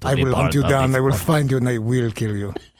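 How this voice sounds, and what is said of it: Liam Neeson impression, Russian accent. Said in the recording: “your impersonation ... Wait, is he Russian? ... I give him a little Russian accent.”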